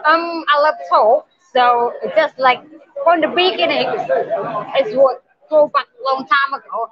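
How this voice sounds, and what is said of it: Speaks English with an accent. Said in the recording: “I like your accent.”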